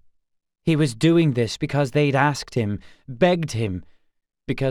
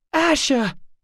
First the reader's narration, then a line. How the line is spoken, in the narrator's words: Daphne cried